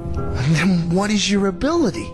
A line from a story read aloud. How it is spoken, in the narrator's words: asked eagerly